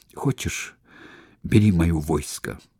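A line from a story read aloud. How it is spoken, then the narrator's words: Whispered. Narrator (Russian): прошептал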